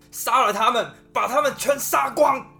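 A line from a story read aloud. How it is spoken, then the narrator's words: Sudden hoarse roar. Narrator (Chinese): 国王突然像是被电到了一般，嘶吼着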